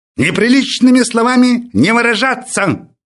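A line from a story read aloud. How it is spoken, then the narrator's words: Sudden bark. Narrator (Russian): Вдруг гаркнул пес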